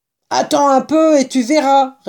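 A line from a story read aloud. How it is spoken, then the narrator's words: Snarling retort. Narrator (French): rétorqua un lapin d'un ton hargneux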